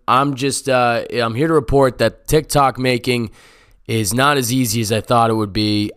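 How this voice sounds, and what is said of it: Slightly raspy voice. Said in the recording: “I've had a fever the past 4 days, and that may explain why my voice sounds a little raspy”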